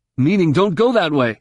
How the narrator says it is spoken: exclaimed

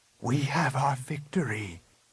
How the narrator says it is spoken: Luke whispered

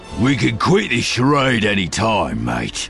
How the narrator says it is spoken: Dengar growls

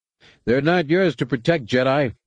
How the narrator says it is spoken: the Equalist shouted back

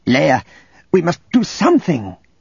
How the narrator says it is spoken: Aang pleaded

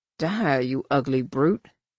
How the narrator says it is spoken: muttered

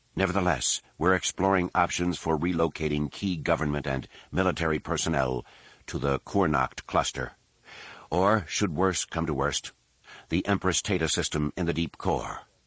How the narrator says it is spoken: Seen Saab assured, then lowered his voice

